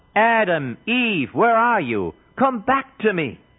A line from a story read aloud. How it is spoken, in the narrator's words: God himself called out